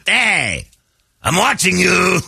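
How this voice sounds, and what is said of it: Put-on French accent. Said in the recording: “French accent.”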